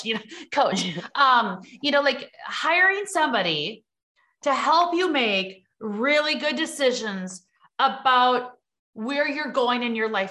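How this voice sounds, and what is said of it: American Midwest accent. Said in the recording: “Now you hear my Midwest accent”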